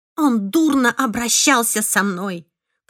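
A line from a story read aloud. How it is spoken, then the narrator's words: Hissed. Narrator (Russian): прошипела я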